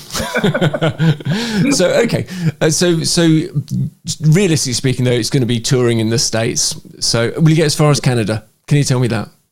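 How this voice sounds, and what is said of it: British accent. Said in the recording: “I love your accent so much. I want to hear it all the time.”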